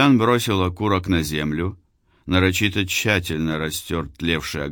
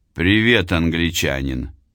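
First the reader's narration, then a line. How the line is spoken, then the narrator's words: Friendly voice. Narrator (Russian): голос эсэсовца звучал вполне дружелюбно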